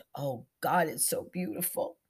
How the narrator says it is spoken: Zelda moaned

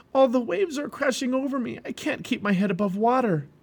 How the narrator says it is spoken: He cried out to Hopeful

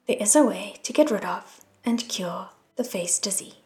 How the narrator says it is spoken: He stated icily

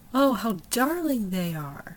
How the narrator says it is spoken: sighed

